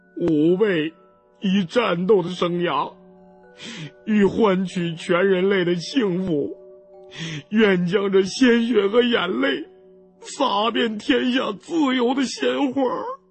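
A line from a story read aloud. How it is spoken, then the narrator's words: Sighing, choked with sobs. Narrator (Chinese): 胖子叹了口气，对着初一的尸体哽咽着说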